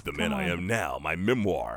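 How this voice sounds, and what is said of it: Dramatic movie-trailer narrator voice. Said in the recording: “the movie phone voice”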